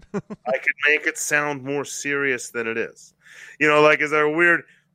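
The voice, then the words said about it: Creepy imitation of another person's voice. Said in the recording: “my creepy Orson Welles-esque shenanigans that I just did, whatever that impersonation I was doing”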